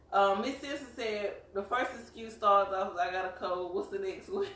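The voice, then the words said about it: Southern US country accent. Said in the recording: “we are from South Carolina. You probably tell by our accents ... we country”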